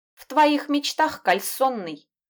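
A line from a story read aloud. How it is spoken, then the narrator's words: Snapping. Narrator (Russian): огрызнулась она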